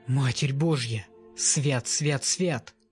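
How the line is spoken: Mumbled prayer, woman. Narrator (Russian): жена забормотала какую-то молитву

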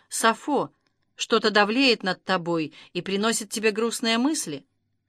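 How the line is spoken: Gentle question. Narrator (Russian): мягко спросила

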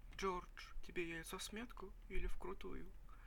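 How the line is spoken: Very quiet question. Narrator (Russian): Спросила Амелия очень тихо

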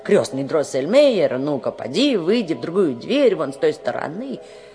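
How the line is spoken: Impatient exclamation. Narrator (Russian): Фриц воскликнул нетерпеливо

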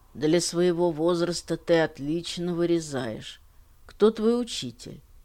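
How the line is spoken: Deep bass voice. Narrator (Russian): басовитым голосом проговорил

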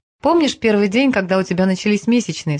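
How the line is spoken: Plain question. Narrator (Russian): спросил он

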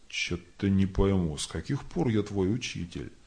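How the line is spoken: Grumbling. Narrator (Russian): Тот проворчал

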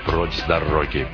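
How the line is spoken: Menacing bass. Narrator (Russian): угрожающим басом заявил Пакстон

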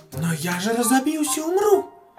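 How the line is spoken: Exclaiming tartlet. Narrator (Russian): воскликнула тарталетка

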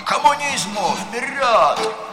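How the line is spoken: Loud mindless group yelling. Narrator (Russian): Первый десяток был самый горластый, тупо орал

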